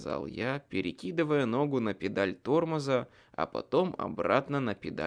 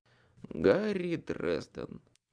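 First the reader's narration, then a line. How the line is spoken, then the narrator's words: Sigh. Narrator (Russian): вздохнул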